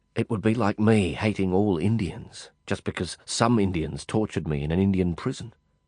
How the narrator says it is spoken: I said softly

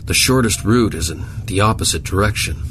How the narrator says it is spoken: Zimmerman grumbled

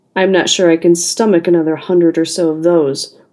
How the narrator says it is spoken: remarked gloomily

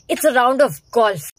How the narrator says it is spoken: Kevin snapped

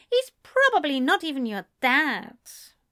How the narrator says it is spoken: Ezra grumbled

